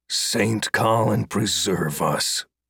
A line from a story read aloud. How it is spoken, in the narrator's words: muttered to himself